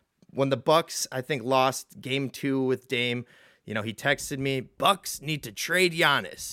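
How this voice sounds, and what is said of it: Usual voice. Nothing is said of it.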